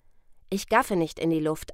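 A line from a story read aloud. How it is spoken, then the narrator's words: Calm answer. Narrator (German): antwortete Pierre Anton ruhig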